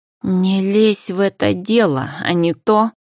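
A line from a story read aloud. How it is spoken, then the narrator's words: Angry hiss. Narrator (Russian): зло зашипела парфюмерша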